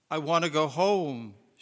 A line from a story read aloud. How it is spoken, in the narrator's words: whimpered